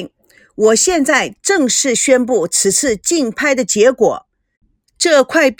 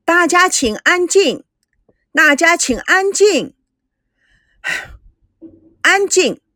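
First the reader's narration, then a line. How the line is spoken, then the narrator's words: Loud shouting. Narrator (Chinese): 竞标师大声的喊着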